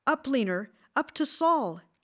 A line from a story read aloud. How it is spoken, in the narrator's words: Katie shouted